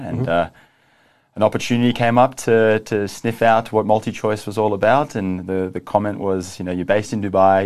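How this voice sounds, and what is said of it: Australian accent. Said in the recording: “you have an Australian accent”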